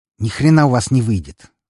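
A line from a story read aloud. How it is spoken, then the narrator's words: Angry. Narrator (Russian): зло произнесла альфарка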